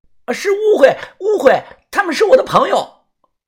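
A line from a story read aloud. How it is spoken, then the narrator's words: Flustered shout. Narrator (Chinese): 小红毛 慌张的大喊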